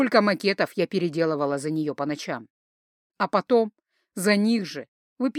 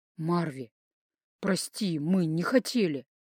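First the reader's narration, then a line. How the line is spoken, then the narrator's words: Timid mumble. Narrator (Russian): Робко промямлил Аркарис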